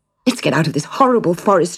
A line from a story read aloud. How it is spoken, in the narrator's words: cried